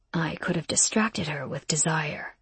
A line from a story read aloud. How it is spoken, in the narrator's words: he muttered